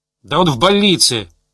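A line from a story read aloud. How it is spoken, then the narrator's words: Barked. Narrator (Russian): рявкнул Ларионов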